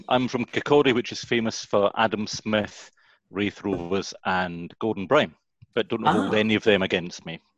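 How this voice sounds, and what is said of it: Scottish accent. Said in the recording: “That's a lovely accent there. Which part of Scotland are you from?”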